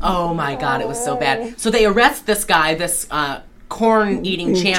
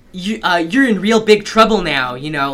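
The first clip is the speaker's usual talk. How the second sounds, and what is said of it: Put-on Baltimore accent. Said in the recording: “he sounds like he's in straight out of a John Waters. He's, like, doing this, like, Baltimore accent. Like, he's, like, Gator in Female Trouble”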